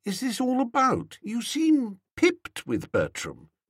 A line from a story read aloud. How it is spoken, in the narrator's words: I said gently